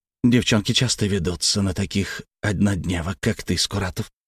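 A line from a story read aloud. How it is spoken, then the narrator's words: Contemptuous, through teeth. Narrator (Russian): процедил он презрительно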